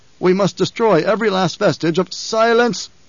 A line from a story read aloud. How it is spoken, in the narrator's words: the Emperor roared